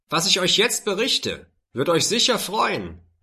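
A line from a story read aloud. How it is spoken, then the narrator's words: Calling out. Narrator (German): rief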